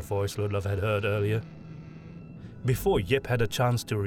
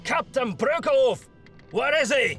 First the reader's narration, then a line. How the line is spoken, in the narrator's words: Tormgard shouted again